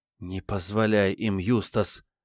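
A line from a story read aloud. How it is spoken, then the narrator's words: Whisper. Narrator (Russian): прошептала Диана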